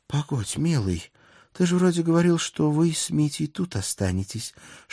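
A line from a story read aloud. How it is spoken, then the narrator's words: Whispered in ear. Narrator (Russian): шепнула на ухо моя Алена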